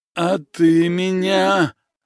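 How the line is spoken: Wheezing, spiteful, spitting blood. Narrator (Russian): хрипя, поверженный злобно плевался кровью

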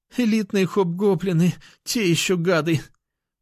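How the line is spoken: Pained moan, wounded. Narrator (Russian): Простонала Лера, у которой были следы крови на ногах и боку

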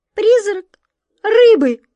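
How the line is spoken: Squeaky cat's cry. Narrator (Russian): пискнула кошка

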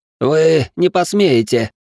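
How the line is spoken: Hoarse wheeze. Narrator (Russian): просипела жертва графёныша

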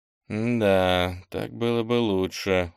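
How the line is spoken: Sighed. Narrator (Russian): вздохнул Кенни

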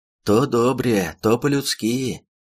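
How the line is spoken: Rumbling drone. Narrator (Russian): прогудел

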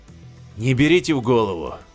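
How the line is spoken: Weary and dismissive. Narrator (Russian): устало отмахнулся Ганнет

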